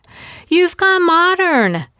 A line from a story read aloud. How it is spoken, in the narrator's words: squealed